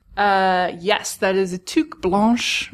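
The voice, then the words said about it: Put-on French accent. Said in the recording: “Did you like my French accent?”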